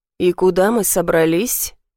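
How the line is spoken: Low growling voice. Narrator (Russian): Низкий рычащий голос

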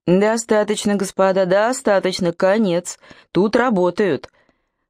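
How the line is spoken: Booming repeated call. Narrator (Russian): повторял страж зычным голосом

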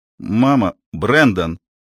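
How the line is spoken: Sharp cutting off. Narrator (Russian): резко оборвал Балантайн

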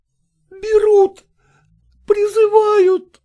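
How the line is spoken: Piercing cry. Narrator (Russian): пронзительно вскрикнула Лукерья Ивановна

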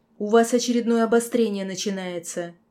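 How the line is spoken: Loud laughter. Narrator (Russian): Сонхит расхохотался

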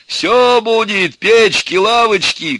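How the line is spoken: Shouting from window. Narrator (Russian): кричал уже из окна Иван

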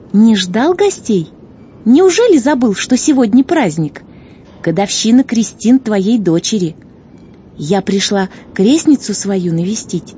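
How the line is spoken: Cheerful chirping. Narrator (Russian): весело прощебетала незнакомка

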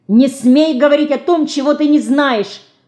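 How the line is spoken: Shouting, losing composure. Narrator (Russian): Потеряв на минуту самообладание, закричала

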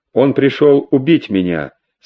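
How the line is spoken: Calm. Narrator (Russian): спокойно ответила Сильвия

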